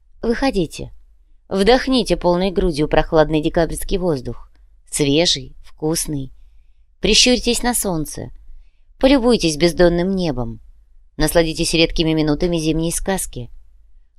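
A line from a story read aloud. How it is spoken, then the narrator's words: Playful, teasing laughter. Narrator (Russian): Лучи звали играть, лучи дразнились, лучи смеялись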